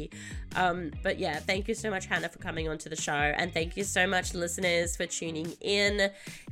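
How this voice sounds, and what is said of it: Croaky, hoarse voice. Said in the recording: “I'm losing my voice, so sorry, this is a bit croaky”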